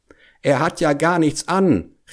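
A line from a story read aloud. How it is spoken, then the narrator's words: Whole crowd calling out. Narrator (German): rief endlich das ganze Volk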